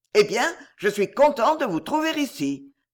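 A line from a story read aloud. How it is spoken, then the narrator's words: Angry sneering exclamation. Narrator (French): s'écria-t-il avec un ricanement qui était chez lui la dernière expression de la colère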